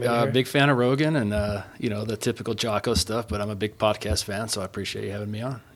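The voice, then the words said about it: Smooth radio-style voice. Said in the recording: “You got a great radio voice.”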